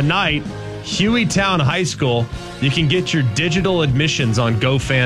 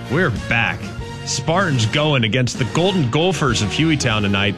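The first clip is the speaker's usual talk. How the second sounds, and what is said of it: Put-on Minnesota accent. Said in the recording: “I know it's a Minnesota accent, but that's the only way I know how to say golfer”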